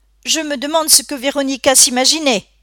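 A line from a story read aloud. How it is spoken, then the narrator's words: Grandmother exclaiming. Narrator (French): s'écria sa grand-mère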